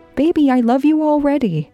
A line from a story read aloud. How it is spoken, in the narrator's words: Jean said, cheerfully, trying to encourage Candace